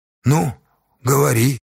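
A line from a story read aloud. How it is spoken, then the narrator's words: Hesitant agreement. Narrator (Russian): неуверенно согласился Осташа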